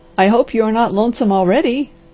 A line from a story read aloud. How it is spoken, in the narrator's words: laughed the doctor